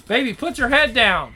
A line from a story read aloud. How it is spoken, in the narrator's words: The shouts get louder